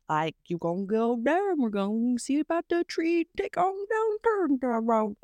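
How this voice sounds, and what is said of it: Weak attempt at Cajun accent. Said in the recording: “I have tried to like do the whole Cajun accent... And I can't do it, no matter how hard I try.”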